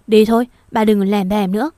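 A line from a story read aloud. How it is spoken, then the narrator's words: Sharp shout. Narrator (Vietnamese): Còn Lan Anh lại quát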